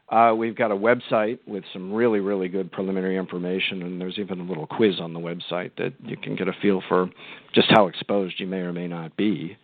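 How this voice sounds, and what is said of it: Voice sounds like he has a cold. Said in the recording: “I've got a bit of a cold.”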